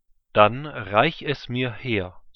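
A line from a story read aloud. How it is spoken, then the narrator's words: Plain. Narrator (German): sagte Isaak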